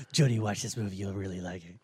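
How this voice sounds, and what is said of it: Terrible Ben Affleck impression. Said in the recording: “my terrible Ben Affleck impersonation”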